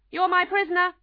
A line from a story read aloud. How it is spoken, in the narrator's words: the Red Knight cried, as he fell off his horse